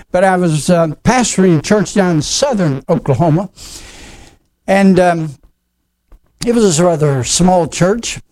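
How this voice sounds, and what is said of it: Oklahoma accent. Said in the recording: “I was raised in Oklahoma. You probably know that from the accent that I have.”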